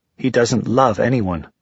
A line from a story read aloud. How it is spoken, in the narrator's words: Jocelyn snapped